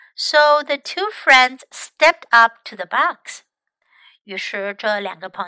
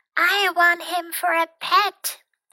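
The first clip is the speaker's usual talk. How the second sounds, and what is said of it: Very small, tiny voice. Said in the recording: “in a very little voice”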